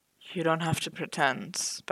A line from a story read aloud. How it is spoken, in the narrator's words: Bucky muttered